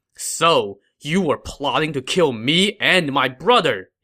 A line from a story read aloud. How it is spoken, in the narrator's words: he said angrily